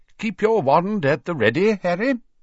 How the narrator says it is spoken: he said brightly

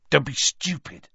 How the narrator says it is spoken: said Ron sharply

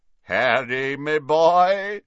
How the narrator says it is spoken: said a booming voice from behind them

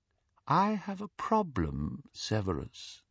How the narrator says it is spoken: said Voldemort softly

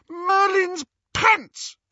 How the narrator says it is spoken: She shrieked

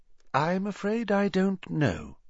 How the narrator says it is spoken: said Dumbledore, his voice gentle

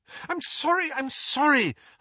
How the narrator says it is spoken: Hermione cried

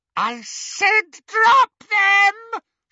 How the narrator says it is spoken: she screeched

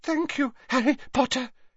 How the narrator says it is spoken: he panted

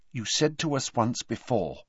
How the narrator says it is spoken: said Hermione quietly

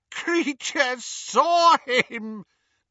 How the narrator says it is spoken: gasped the elf, as tears poured over his snout and into his mouth

